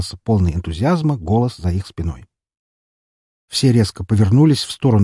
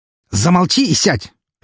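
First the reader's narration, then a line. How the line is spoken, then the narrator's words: Bark. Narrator (Russian): рявкнул на своего клиента Артемий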